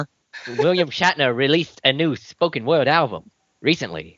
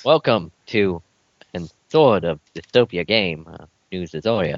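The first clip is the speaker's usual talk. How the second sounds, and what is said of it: Captain Kirk impression. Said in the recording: “Are you doing a Captain Kirk impression there? ... Cram it, Shatner.”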